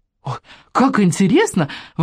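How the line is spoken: Exclamation. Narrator (Russian): воскликнул Саня

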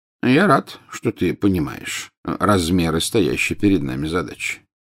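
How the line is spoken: Calm. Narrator (Russian): спокойно сказал Дамблдор

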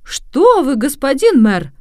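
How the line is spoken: Exclaiming. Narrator (Russian): воскликнул Джованнино

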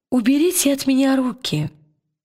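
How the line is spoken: Calm. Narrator (Russian): спокойно сказала она привратнику

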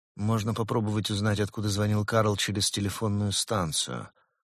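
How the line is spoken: Sleepy. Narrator (Russian): сонно произнес Улис

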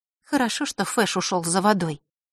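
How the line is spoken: Quiet. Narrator (Russian): тихо сказала она

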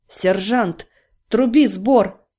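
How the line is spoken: Barked order. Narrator (Russian): рявкнул дровосек

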